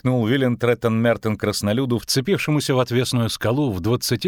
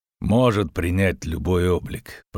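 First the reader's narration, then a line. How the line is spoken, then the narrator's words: Grumbling. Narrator (Russian): проворчал Геральт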